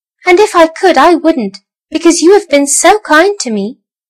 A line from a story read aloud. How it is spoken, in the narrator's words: squeaked the little mouse toy